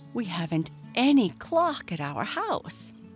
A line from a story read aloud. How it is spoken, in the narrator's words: he exclaimed